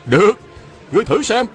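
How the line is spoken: Shouting. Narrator (Vietnamese): Phan Tú Đạt la lên

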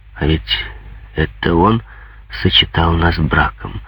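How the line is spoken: Timid remark. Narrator (Russian): робко заметил поэт

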